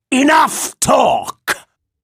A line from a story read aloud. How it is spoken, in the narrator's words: snapped Viego